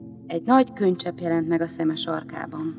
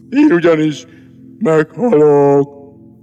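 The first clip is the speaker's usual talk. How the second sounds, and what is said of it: Even more sepulchral, gloomy voice. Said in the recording (Hungarian): “Mondta még síribb hangon”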